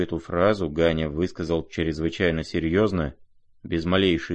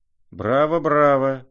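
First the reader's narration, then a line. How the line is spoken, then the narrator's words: Shout. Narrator (Russian): закричал Фердыщенко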